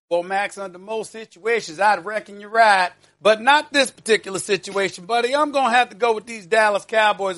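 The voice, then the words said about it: Put-on Southern accent. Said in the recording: “my Southern accent”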